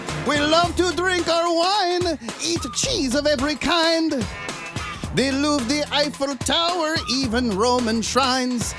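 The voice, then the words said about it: Put-on French accent while singing. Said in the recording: “I feel like I needed to channel my French accent for this one.”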